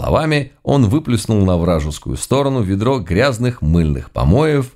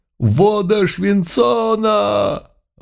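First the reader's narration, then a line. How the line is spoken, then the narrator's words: Agonized collective howl. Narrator (Russian): Взвыли все, мгновенно покрываясь язвами, глубокими ранами, дымясь и едва не распадаясь на части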